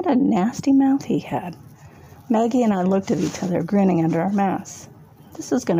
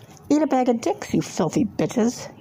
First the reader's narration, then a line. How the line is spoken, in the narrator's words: he spat